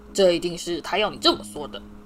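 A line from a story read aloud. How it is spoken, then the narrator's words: Roaring. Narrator (Chinese): 派屈克爵士的头吼道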